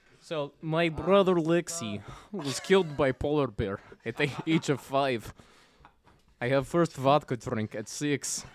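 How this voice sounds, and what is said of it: Put-on Eastern European accent. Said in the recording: “I can't do Fabio, but I can do this like weird Eastern European thing ... That was good.”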